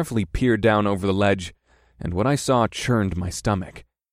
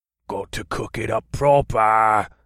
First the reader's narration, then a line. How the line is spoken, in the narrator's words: another grunting voice replied